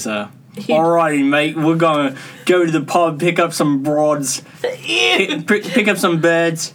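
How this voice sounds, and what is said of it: Basic put-on British accent. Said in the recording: “What kind of British accent is it? ... your basic ... if you do that accent”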